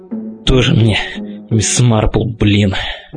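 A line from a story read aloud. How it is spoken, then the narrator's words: Through gritted teeth. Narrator (Russian): Сквозь зубы процедил я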